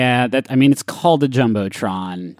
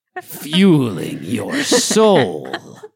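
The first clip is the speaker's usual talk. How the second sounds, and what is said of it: Shang Tsung-style announcer voice. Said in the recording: “like I was fucking Shang Tsung from Mortal Kombat ... announcer voice”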